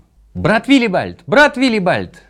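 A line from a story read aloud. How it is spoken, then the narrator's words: Shouting. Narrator (Russian): закричал он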